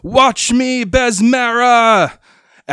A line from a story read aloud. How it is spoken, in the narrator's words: Sandera shouting